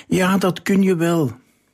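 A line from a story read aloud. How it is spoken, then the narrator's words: Crowd and children calling. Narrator (Dutch): riep iedereen, en vooral de kinderen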